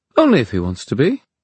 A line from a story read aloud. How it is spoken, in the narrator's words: said Neen, cheerfully